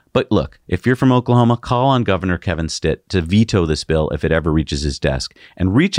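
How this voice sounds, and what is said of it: Usual voice. Nothing is said of it.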